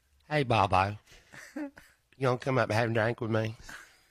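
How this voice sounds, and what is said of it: Imitates another person's voice. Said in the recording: “impersonate her”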